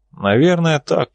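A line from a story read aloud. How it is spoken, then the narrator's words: Bitter sigh. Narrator (Russian): страх Божий с горечью вздохнул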